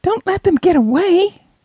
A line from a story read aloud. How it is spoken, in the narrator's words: Nathan cried